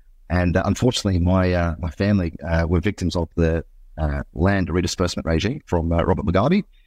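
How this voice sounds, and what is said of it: Slightly unusual foreign accent. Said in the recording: “If my accent's a little bit off ... I grew up in a country called Zimbabwe”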